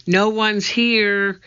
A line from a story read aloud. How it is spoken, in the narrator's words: shouted back